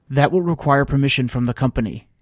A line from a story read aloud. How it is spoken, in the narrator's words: I said quickly